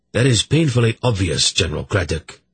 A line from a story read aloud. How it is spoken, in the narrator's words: Urgot replied coldly